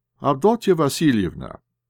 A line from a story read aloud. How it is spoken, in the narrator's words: said he, sharply